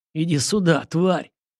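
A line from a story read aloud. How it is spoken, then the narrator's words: Pained hoarse rasp. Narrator (Russian): кривясь от боли в боку, прохрипел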